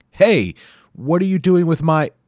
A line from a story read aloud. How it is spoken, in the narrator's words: Ryu could hear a voice yelling